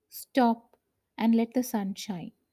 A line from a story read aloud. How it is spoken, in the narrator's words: he said in a loud voice